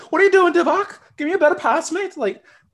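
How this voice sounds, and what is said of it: Put-on Scouse accent. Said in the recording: “full Scouse accent”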